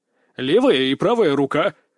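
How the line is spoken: Horse-like laugh. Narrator (Russian): рассмеялся я как конь

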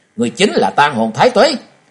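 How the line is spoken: Shouting. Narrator (Vietnamese): Trần Lâm hét lên một tiếng nói

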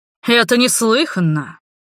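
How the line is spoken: Menacing shout. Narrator (Russian): грозно выкрикнул

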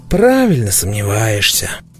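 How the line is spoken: Heavy sigh, agreeing. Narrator (Russian): тяжело вздохнув, согласился со мной Айхе

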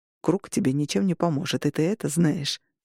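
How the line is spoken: Muttered. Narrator (Russian): пробормотал Августин

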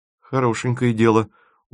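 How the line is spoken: Dejected, sinking voice. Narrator (Russian): упавшим голосом отозвался Тимофеев

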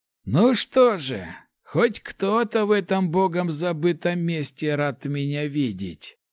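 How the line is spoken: Drawl while lighting pipe. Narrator (Russian): Протянул, прикуривая трубку

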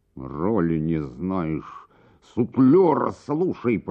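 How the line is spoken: Hissed. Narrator (Russian): прошипел трагик

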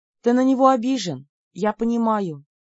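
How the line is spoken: Sighing. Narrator (Russian): вздохнула

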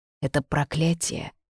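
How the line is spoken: Witch's whisper. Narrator (Russian): прошептала ведьма

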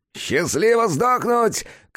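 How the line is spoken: Shouting. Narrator (Russian): крикнул сатана

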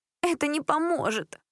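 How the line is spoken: Sobbing. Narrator (Russian): всхлипнула Джессика

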